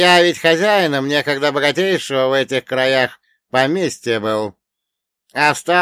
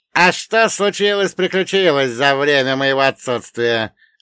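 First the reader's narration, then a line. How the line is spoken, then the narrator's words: Plain. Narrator (Russian): ответил Вольга Богданович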